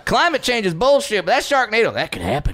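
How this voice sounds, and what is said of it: Put-on Southern US accent. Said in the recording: “Why do you have a southern accent?”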